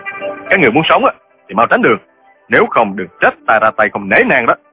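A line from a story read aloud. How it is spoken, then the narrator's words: Bold, forceful shout. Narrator (Vietnamese): hùng dũng xông tới quát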